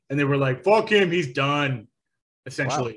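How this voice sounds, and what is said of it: Put-on Long Island accent. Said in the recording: “in that in that Long Island accent”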